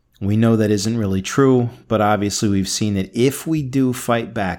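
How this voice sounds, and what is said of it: Voice sounding rough and unwell. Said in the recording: “you could hear my voice was pretty bad today ... hopefully I sound a lot better than I do right now”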